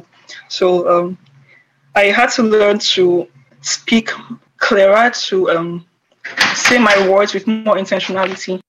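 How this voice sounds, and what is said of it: Thick Nigerian Igbo accent. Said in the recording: “I think I still have a very thick Nigerian accent ... like a particular tribe, because I'm Igbo”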